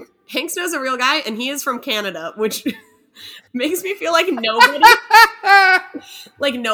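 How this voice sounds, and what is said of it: Usual voice. Nothing is said of it.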